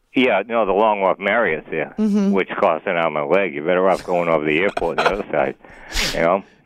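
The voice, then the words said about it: Noticeable regional accent. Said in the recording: “I like the accent.”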